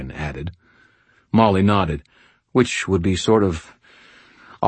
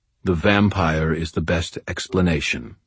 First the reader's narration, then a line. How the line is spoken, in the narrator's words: Morgan replied, his tone carefully neutral